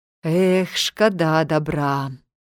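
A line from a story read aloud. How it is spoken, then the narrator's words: Sighed. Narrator (Belarusian): уздыхнуў ён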